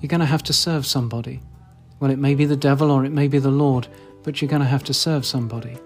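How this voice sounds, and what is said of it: British RP accent. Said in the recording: “My unfashionable RP accent can't do it justice”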